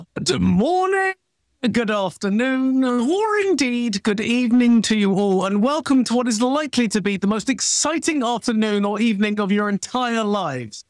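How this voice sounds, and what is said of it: British accent. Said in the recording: “why I have a British accent”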